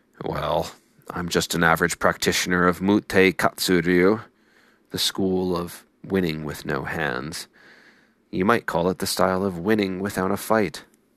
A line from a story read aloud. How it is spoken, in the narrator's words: The older samurai responded